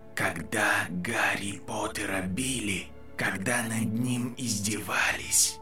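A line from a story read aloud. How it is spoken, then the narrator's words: Whispering voice. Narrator (Russian): шептал голос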